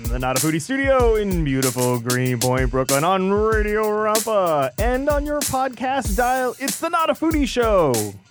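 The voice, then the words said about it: Old-school radio announcer voice. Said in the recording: “my old school radio voice”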